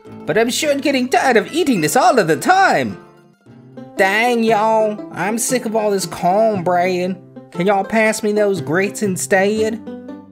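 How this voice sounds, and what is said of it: Poorly acted put-on accent. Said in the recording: “all my poorly acted weird accents”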